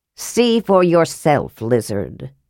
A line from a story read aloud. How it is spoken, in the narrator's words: the Thewar sneered